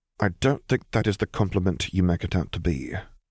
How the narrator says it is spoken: retorted dryly

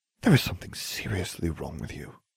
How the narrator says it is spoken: Hermione murmured

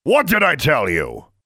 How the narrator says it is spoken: Gru bellowed

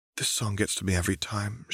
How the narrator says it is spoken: she whispered to Harry

